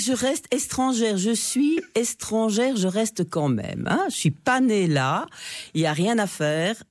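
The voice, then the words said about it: Slight Belgian Charleroi accent. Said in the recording (French): “Vous gardez un petit accent, Carolo.”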